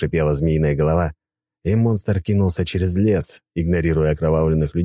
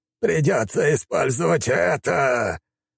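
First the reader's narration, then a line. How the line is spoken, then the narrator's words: Hiss. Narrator (Russian): прошипел тот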